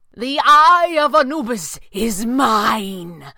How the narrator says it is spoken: Pavli shouted

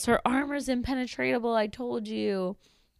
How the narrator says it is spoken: Orin, stupid dummy, yells

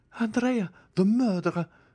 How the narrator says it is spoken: cried one of the ladies

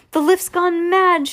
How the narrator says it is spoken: shouted Grandpa Joe

